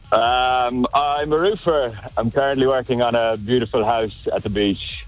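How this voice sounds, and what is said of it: Irish accent. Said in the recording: “You got yourself an accent, do you? ... Yeah, a little bit. Irish. ... I don't understand a bloody word you're saying.”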